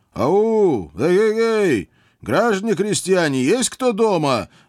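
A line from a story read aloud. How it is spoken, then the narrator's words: Loud shout. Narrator (Russian): громко прокричал я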